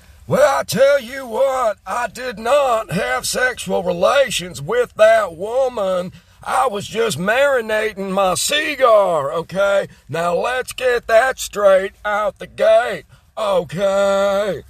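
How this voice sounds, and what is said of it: Bill Clinton impression. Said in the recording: “a little Bill Clinton impersonation”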